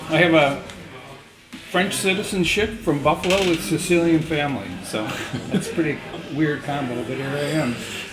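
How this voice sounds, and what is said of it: Non-Scottish accent. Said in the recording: “as people hear from your voice, you're not from Scotland”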